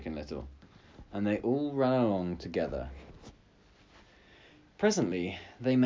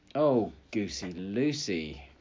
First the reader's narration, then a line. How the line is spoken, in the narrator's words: cried Chicken Little